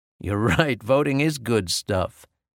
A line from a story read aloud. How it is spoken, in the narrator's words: said my brother, laughing